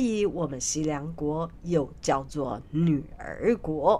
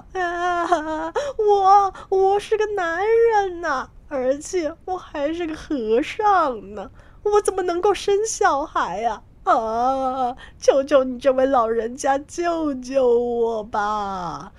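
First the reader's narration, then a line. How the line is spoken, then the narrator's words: Loud sobbing plea. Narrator (Chinese): 唐三藏就大声的哭了起来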